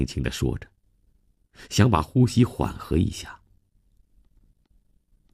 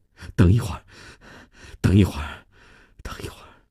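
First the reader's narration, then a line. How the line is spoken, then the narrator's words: Breathless. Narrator (Chinese): 米娜停下来喘了口气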